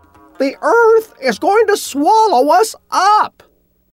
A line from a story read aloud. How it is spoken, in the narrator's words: The chicken called out again